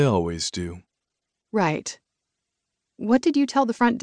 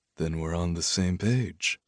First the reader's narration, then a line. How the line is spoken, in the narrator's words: he said softly